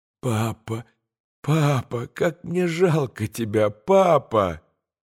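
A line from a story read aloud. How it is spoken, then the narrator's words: Bitter moan. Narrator (Russian): горько простонал Илюша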